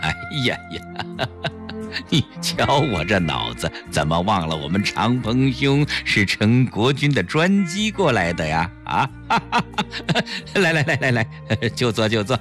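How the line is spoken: Self-mocking laugh. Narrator (Chinese): 陈坤博自嘲地笑了笑

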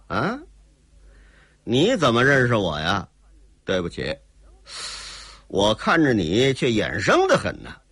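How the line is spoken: Cold laugh. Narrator (Chinese): 姓齐的冷冷一笑

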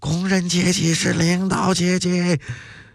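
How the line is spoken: Crowd shouting slogan. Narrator (Chinese): 工人们又跟着高喊

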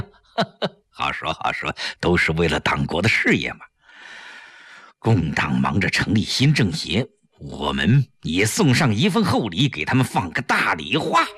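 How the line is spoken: With a smile. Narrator (Chinese): 程寒三一笑

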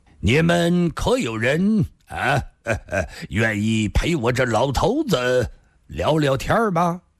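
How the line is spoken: Smiling. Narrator (Chinese): 他……微笑地说道

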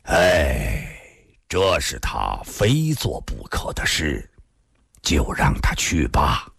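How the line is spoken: Old man sighing. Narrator (Chinese): 孙老先生突然叹了口气

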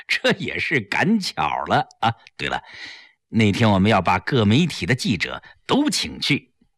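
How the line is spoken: Modest, smiling. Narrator (Chinese): 齐长鹏笑笑，谦虚地说

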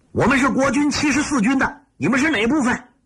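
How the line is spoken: Loud shout. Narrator (Chinese): 侦察参谋大喊一声

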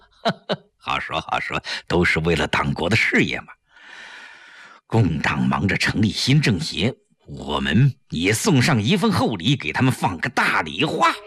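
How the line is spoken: Light laugh. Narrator (Chinese): 陈寒三一笑

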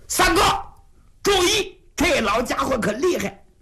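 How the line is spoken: Urgent shout. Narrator (Chinese): 云瑞 紧喊

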